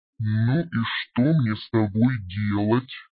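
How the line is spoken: Growled. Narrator (Russian): Прорычал он

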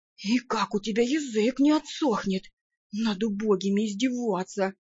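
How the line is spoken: Beggar's mutter. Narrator (Russian): буркнул нищий

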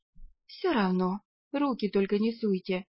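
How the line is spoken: Sighing. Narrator (Russian): вздохнула я

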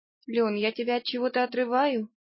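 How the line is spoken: Timid anxious question. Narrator (Russian): робко спросила я, почуяв неладное

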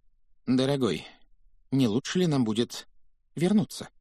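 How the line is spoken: Timid inquiry. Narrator (Russian): робко поинтересовалась тетя Петунья

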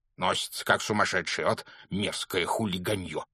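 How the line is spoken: Grumbling. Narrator (Russian): проворчал он

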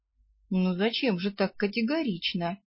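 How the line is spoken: Gentle reproach. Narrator (Russian): Мягко упрекнул ее Раллар

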